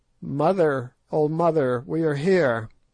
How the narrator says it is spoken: one of them cried out

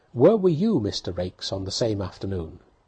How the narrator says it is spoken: said, quite sharply and suddenly

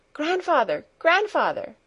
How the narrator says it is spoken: she cried, beside herself with excitement

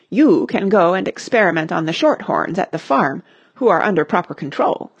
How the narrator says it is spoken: said Mrs

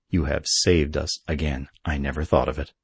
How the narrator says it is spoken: said Lee, speaking very gravely

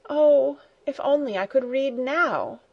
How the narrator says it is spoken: with a sigh, exclaimed

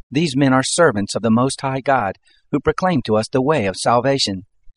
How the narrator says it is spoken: The same, following after Paul and us, cried out

